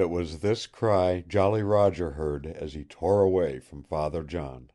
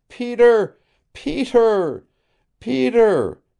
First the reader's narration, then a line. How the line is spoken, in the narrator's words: a cry burst from Nada's lips, a wild and sobbing cry